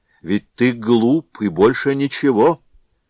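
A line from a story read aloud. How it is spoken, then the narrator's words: Loud. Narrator (Russian): громко сказал Григорий Григорьевич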